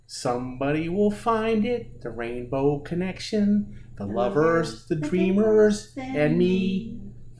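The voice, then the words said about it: Singing in a Kermit the Frog voice. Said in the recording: “fairly good Kermit imitation”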